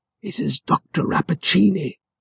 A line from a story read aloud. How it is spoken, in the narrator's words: whispered the professor